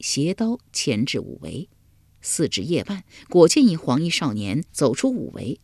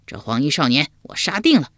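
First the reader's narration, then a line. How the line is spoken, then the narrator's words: Loud. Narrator (Chinese): 秋亚高声说道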